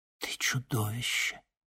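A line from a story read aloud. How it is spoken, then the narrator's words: Whispered. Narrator (Russian): прошептала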